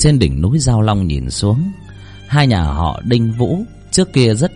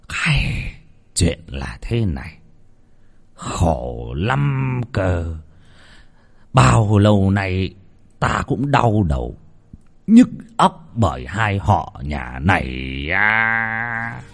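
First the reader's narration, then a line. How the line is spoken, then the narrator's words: Heavy weary sigh. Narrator (Vietnamese): Lão Trọng Kiên thở dài sườn sượt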